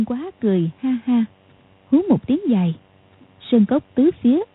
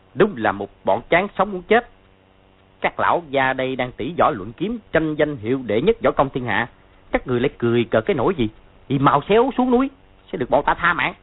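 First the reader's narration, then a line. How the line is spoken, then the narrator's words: Harsh group shout. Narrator (Vietnamese): 6 người kia gằn giọng quát lên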